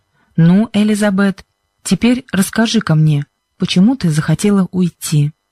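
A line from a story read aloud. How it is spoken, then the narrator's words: Kind voice. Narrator (Russian): проговорил мистер Джонсон добрым голосом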